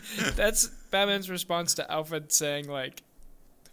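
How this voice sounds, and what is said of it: Usual voice. Nothing is said of it.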